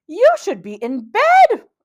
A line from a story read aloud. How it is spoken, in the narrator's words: exclaimed Esther